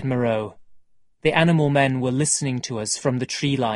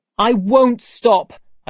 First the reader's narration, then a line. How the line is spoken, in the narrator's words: cried